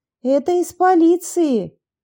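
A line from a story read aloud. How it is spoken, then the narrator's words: Loud reply. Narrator (Russian): громко ответила Анна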